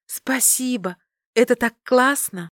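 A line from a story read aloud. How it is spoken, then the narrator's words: Exclamation. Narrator (Russian): воскликнула я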